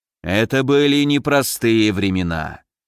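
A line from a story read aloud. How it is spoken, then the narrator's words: Sighing. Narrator (Russian): вздохнул Разумовский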